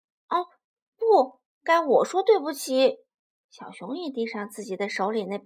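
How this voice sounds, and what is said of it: Usual voice. Nothing is said of it.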